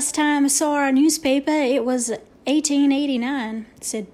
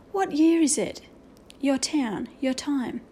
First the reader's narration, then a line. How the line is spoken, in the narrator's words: he whispered